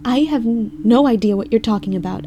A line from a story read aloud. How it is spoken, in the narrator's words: I stammered